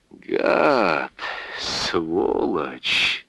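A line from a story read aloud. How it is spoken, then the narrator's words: Breathed out. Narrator (Russian): выдохнул Михаил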